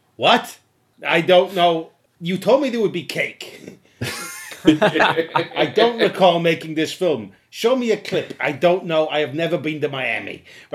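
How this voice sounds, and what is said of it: Imitates another person's voice. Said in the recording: “My impression of the director being interviewed for that documentary.”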